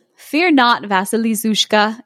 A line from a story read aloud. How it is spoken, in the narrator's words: it said